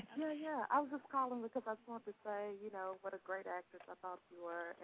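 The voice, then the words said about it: Thick Southern US accent. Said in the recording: “Down south girl calling, so the accent's probably thick”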